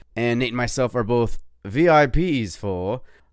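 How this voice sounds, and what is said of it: Put-on British accent. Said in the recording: “I have to say that with a British accent because it sounds super royal.”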